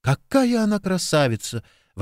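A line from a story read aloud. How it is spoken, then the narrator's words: Delighted, breathless. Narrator (Russian): восторженно выдохнула Джессика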